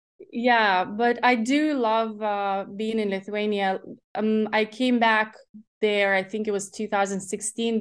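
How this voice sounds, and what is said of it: Slight Irish twang. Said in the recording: “The Ireland, ... The Irish. ... There's a little twang in there. It's really sweet.”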